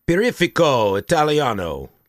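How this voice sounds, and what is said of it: Put-on Italian accent, badly done. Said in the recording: “you're just trying to do the accent ... It's terrible”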